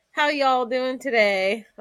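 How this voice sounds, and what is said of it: Put-on Southern accent. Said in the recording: “I tend to depict a little bit of southern because I think it sounds charming”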